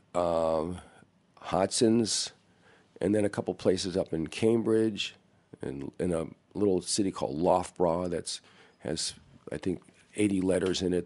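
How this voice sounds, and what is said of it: Hoarse voice. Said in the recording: “I'm hoarse, have a little cold.”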